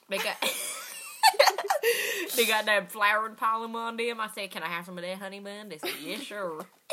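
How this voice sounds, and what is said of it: Put-on Southern accent. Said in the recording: “I got a southern accent. I can get all them country girls with that.”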